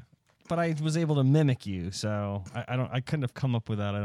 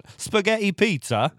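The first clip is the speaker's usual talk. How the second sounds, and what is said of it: Put-on Italian accent. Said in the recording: “That probably would have been an Italian accent... I don't have a very good Italian accent though... That was pretty good.”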